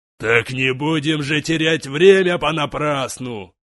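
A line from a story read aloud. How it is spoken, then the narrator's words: Roaring giant. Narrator (Russian): Клыкастый исполин взревел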